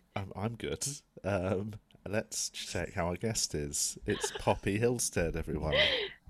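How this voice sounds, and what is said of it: Soft, quiet, soothing voice. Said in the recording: “Your voices are so soft, guys ... Silky radio voice ... We're just speaking quietly and it's soothing”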